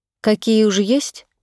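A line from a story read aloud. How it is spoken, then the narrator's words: Calm answer. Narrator (Russian): ответила я спокойно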